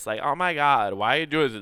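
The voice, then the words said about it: California Valley Girl voice. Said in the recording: “It starts out with like a California like Valley Girl voice.”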